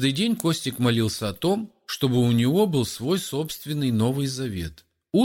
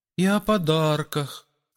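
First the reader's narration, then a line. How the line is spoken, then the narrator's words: Timid request. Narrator (Russian): робко попросил кто-то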